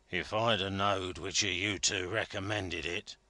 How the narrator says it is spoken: growled Joey Ladle

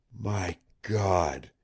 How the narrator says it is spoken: he whispered huskily

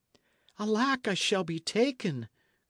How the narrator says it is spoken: cried the fugitive

